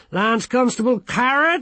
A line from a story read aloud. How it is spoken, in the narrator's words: he shouted